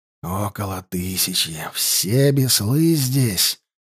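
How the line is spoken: Whisper. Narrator (Russian): прошептал Алексей

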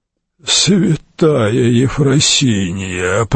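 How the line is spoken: Groaning. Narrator (Russian): простонал аббат

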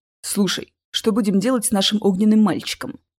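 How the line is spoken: Whispered in ear. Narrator (Russian): зашептал мне на ухо Чес

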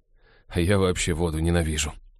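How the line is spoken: Glum agreement. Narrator (Russian): уныло поддакнул Хелл

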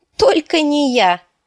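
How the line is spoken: Exclaiming. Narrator (Russian): воскликнула Арья

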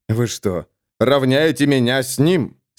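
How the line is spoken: Angry, through gritted teeth. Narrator (Russian): с неожиданной злостью процедил Адриан

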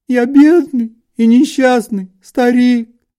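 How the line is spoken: Sobbing. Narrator (Russian): всхлипывал он

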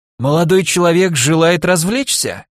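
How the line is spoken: Hoarse smoker's voice. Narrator (Russian): сиплый прокуренный голос

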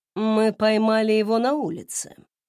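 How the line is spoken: Calm explanation. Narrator (Russian): спокойно пояснил Филипп

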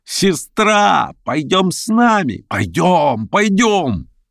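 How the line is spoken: Shouting. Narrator (Russian): закричала

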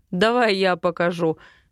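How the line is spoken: Laughing offer. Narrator (Russian): смеясь, предлагает он

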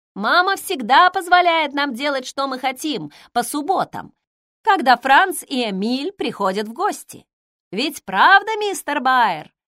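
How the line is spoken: Plain. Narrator (Russian): сказала Минни

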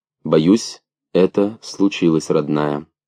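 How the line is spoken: Soft. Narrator (Russian): мягко сказал он

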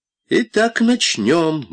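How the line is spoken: Said cheerfully. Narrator (Russian): бодро сказал Дон Рэба

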